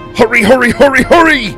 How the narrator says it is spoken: Dai shouted

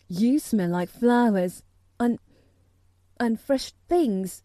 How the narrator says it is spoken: he cried out quite joyously

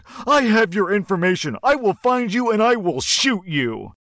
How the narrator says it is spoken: The father loses his mind even more and yells back

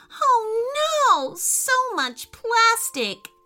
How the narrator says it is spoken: wailed Ruby

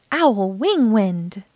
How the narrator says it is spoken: cried as she flapped her wings

